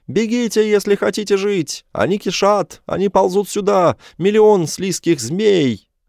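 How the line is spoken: Yelling. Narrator (Russian): вопить

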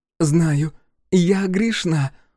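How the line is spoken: Sobbing. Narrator (Russian): Джиа разрыдалась

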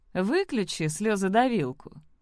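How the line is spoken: Cruel snort. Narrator (Russian): жестоко хмыкнул Зорро

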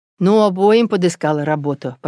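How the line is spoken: Grumbling father. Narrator (Russian): продолжал ворчать отец

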